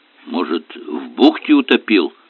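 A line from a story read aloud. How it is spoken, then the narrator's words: Warrior muttering. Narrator (Russian): пробормотал воин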